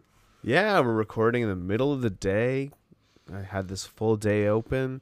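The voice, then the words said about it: Froggy, hoarse voice. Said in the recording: “I'm a little bit froggy and hoarse today ... my voice is a little hoarse. It's because I had COVID”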